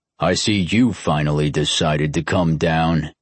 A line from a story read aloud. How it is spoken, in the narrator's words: said in a gruff voice